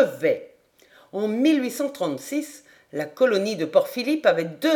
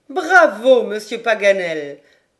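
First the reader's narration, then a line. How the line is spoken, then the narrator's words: Exclaiming with hearty laughter. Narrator (French): s'écria Lady Helena en riant de bon cœur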